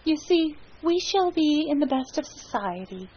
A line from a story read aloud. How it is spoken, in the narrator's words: she ventured timidly